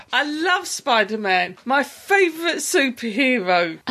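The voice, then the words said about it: Heavy sarcastic delivery. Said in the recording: “was that sarcasm? ... That was sarcasm in its lowest form.”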